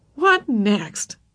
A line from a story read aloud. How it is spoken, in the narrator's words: laughed